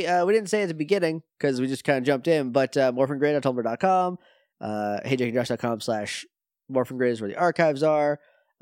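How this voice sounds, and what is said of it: Sick, congested voice. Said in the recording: “I'm sick. You can tell from my voice I'm sick.”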